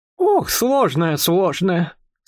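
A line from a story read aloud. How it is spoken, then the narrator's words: Sighing again. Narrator (Russian): снова вздохнула она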